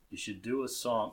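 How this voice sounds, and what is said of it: Impression of Andy Warhol. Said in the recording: “I'm not going to do an impression of Andy. I could try.”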